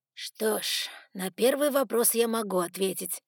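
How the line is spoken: Unexpectedly tired voice. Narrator (Russian): неожиданно усталым голосом произнес приемный отец Сумрака

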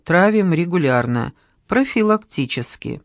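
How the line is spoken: Calmer. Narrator (Russian): более спокойно добавила

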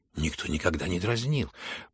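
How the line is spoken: Frightened mutter. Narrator (Russian): пробормотала в испуге Аделаида

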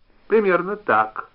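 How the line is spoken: Angry, flushed. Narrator (Russian): зло розовея сказал Губин

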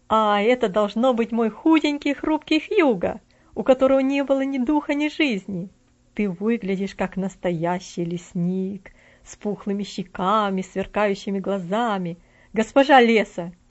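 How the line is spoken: Shouting. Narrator (Russian): крикнул

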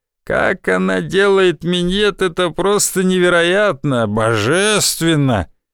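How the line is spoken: Feigned laughter. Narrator (Russian): Та притворно засмеялась

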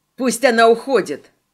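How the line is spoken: Red-haired man shouting. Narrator (Russian): крикнул рыжий

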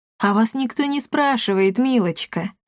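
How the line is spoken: Laughing. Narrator (Russian): рассмеялась баронесса

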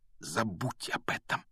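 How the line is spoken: Almost silent whisper. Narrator (Russian): почти беззвучно прошептал Гарри

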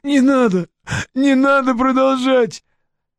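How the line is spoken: Pleading. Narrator (Russian): взмолился Геннадий

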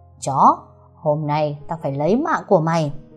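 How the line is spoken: Monstrous roar, gritted teeth. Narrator (Vietnamese): Con quỷ bắt đầu gầm rú ghê rợn, nó nghiến răng trèo trèo

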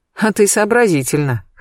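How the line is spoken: Snorting chuckle. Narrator (Russian): хмыкнул Сергей Львович

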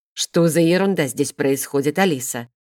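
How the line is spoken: Menacing necromancer's question. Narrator (Russian): грозно вопросил некромаг

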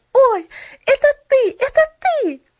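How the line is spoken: Exclaimed. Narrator (Russian): воскликнула она

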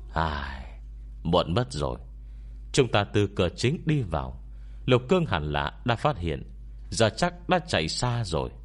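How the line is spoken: Sighing. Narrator (Vietnamese): Quảng Nhân lại thở dài nói với hai người

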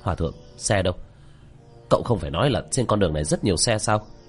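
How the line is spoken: Angry. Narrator (Vietnamese): Tiểu Thất tức giận

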